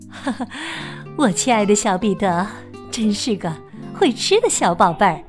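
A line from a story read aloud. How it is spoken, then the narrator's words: Soft laughing voice. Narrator (Chinese): 她……呵呵一笑，轻声说道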